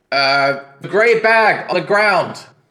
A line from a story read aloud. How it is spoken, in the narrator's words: you hear him shout back